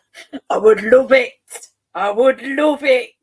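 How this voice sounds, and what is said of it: Imitates another person's voice. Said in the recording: “my really rubbish impression of Kevin Keegan that didn't sound anything like him”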